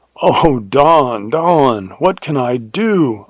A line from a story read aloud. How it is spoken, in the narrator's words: I cried in horror